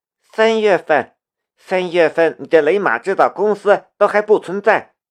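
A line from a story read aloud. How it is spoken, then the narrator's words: Angry. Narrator (Chinese): 古可文怒道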